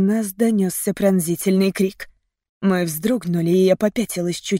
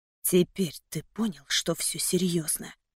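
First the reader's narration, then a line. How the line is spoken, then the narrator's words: Whisper. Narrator (Russian): прошептал Трэвис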